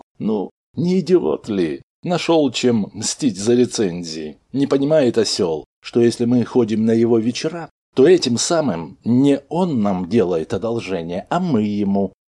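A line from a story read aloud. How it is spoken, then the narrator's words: Surprised, laughing. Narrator (Russian): Редактор бы удивился, засмеялся и сказал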